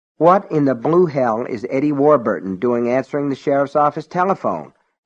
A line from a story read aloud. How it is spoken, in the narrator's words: Alan asked irritably